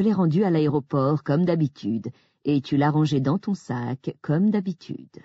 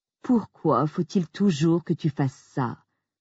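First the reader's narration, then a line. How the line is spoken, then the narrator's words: Moaning. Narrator (French): a-t-il gémi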